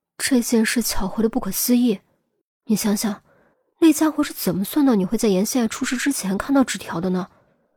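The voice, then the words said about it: Speaking quietly, hushed voice. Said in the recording (Chinese): “小声说”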